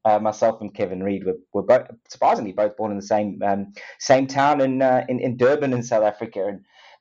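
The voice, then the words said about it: South African accent. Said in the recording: “You probably can hear by, hear by my accent, South African born.”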